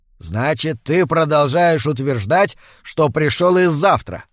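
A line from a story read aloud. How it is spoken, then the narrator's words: Grumbling. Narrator (Russian): проворчал Сигурд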